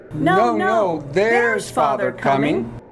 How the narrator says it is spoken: cried the two young Cratchits, who were everywhere at once

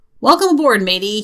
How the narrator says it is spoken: bellows in a hearty voice

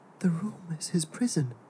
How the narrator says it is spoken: Jeremiah whispered

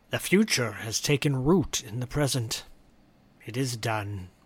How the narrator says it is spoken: he whispers to himself

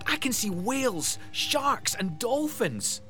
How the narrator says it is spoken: Jay yelled

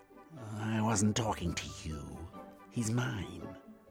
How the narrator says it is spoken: The cat woman hissed and said

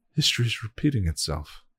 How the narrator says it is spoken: she whispered

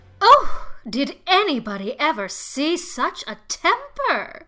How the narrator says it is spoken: exclaimed the horrified Mrs

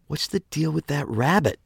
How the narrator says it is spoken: She blurted out at long last

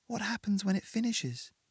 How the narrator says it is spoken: Margaret whispered

